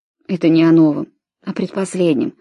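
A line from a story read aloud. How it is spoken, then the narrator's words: Tired reply. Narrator (Russian): устало ответил Брайан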